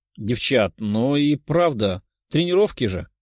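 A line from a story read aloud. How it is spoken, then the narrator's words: Purring. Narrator (Russian): промурлыкала Катя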